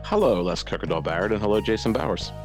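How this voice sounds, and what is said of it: Smooth mellow radio voice. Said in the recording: “sounds really mellow there ... this is my smooth radio voice I'm doing now”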